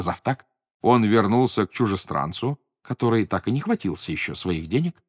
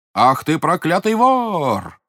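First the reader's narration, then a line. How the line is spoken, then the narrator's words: Shouted. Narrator (Russian): закричал он на чужестранца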